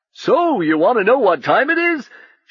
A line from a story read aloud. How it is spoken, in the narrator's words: shouted Uncle Jingle